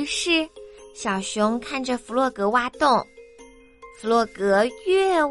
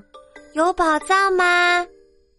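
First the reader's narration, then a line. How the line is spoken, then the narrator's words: Little bear shouting. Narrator (Chinese): 小熊喊道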